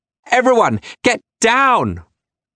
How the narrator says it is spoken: Annie shouting

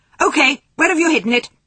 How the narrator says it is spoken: he shouted as soon as he burst into the kitchen

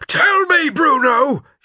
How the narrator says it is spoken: shouted Kotler, his face growing red

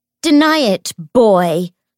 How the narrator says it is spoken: she shouted at James

